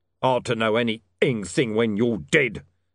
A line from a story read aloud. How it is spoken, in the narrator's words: snarled Mr